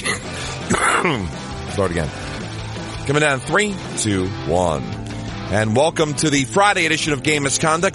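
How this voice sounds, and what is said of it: Sick, under-the-weather voice. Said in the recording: “as you can probably tell by my voice. A tad bit under the weather”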